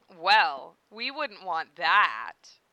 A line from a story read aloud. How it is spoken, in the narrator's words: he agreed in a sultry tone of voice